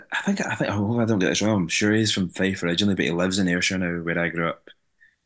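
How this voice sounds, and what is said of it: Mild regional accent. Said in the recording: “your accent is nowhere near as thick as Ricky's”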